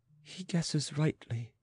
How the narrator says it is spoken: muttered the queen

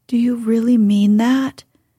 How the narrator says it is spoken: he asked anxiously

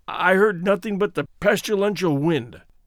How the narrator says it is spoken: said Georges, hoarsely

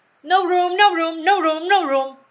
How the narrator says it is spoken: they cried when they saw Alice coming

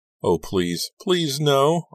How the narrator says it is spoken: I screamed into the rain

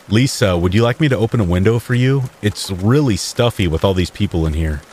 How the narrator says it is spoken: Jim asked

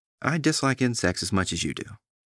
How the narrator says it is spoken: said

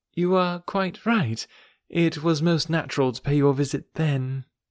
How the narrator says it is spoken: Forcing herself to speak, calmly said

